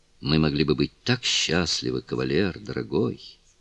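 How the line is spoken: Barely audible breath. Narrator (Russian): Едва слышно выдохнула женщина

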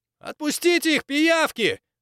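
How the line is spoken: Boy shouting from crowd. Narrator (Russian): выкрикнул мальчишка из толпы

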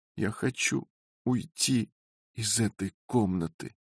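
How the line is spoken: Weak voice. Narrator (Russian): ответила жена все тем же слабым голосом

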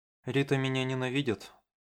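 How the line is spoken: Incoherent mutter. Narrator (Russian): бессвязно пробормотала Масера

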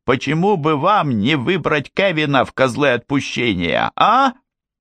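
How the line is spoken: Very loud shouting. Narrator (Russian): Ей хотелось кричать так громко, чтобы и другие соседи здесь, на холме, ее тоже услышали

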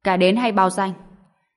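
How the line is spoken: Loud frustrated shout. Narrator (Vietnamese): Tá Đằng Mộc đành phải lớn tiếng quát

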